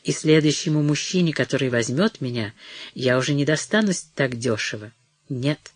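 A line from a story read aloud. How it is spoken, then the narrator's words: Low voice. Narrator (Russian): сказала она вполголоса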